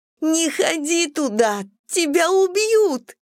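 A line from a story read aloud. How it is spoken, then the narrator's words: Sobbing. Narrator (Russian): рыдала Мэдисон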